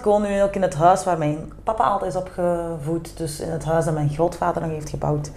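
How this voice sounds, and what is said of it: Strong Kempen Flemish accent. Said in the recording (Dutch): “Jij hebt zo een accentje. ... Een fameus accent. ... Gewoon putteke kempen.”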